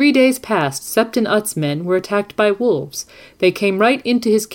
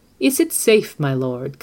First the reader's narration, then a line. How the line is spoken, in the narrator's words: Qyburn asked